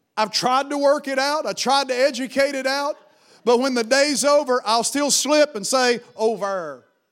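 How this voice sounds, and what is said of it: Appalachian accent. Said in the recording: “I have an Appalachian accent attached to me”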